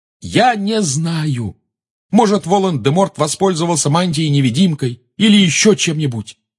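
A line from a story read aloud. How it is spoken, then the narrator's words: Shout. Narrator (Russian): закричал Гарри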